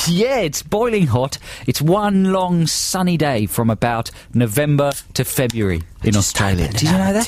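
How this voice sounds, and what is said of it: Poor put-on Australian accent. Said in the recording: “this accent here, the Australian accent ... we realise they're very poor Australian accents”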